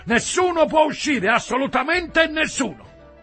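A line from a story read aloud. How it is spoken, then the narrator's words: Policeman shouting. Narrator (Italian): uno dei poliziotti gridò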